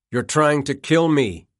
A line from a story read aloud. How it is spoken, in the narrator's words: shouted